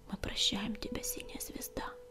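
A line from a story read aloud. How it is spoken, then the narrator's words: Whisper. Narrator (Russian): прошептала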